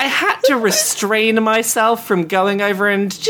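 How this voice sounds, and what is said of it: Usual voice. Nothing is said of it.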